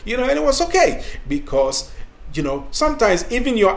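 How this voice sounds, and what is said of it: African accent. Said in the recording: “I had my African accent”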